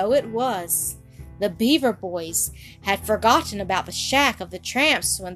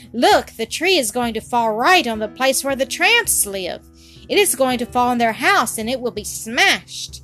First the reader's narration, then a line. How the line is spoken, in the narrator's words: Suddenly Toto cried